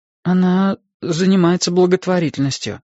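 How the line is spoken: Confused reply after pause. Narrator (Russian): ответил я, растерянно помолчав

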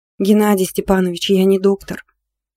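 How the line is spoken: Sighing. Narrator (Russian): вздохнула Надя

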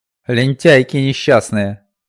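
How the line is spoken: Vicious hiss. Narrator (Russian): злобно прошипела она

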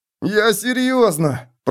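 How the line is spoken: Whining. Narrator (Russian): проскулил Миттельбергер

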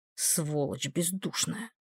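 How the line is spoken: Grumbling. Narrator (Russian): пробурчала она

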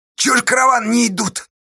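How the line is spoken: Moaning. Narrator (Russian): стонал рядом Федька

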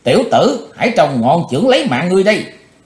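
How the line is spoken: Sudden loud shout. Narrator (Vietnamese): Cái thế hồng bỗng quát lớn

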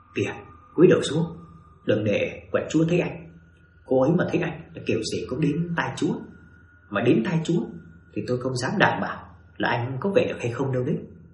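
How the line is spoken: Soft, hushed. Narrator (Vietnamese): Thầy Nguyên nói khẽ

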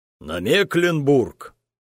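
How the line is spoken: Exclaimed. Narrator (Russian): воскликнул Джайлз

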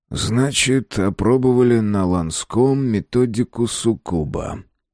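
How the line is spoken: Drawling. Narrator (Russian): протянул

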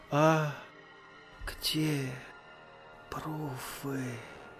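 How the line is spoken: Whisper. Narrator (Russian): Прошептал Петя

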